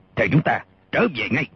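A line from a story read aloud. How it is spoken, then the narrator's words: Shout. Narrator (Vietnamese): Cả quát lên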